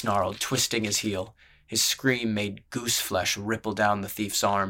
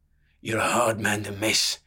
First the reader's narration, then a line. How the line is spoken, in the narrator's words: the outlaw growled